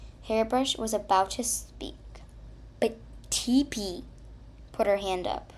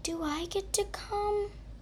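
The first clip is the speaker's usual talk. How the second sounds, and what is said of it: Whiny character voice. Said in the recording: “in a whiny voice.”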